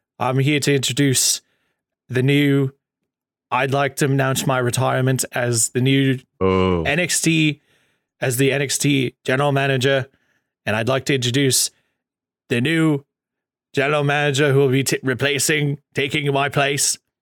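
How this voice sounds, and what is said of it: Posh English accent impression. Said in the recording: “Regal has more of a posh accent”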